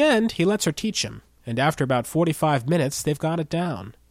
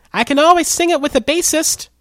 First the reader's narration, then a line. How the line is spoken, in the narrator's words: shouts back